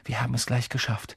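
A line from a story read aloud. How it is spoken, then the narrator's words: Sudden murmur. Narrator (German): murmelt plötzlich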